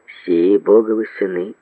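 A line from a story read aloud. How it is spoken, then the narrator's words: Plain. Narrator (Russian): ответил Сальватор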